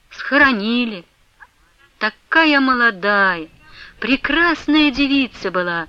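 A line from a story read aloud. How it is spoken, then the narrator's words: Sighing. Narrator (Russian): вздохнул Петр Степанович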